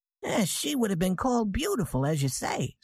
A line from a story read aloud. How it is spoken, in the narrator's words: said Mrs